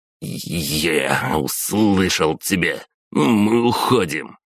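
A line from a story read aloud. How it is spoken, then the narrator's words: Through gritted teeth. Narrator (Russian): процедил Давид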